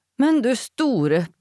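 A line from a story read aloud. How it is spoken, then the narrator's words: Panting. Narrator (Norwegian): peste Dora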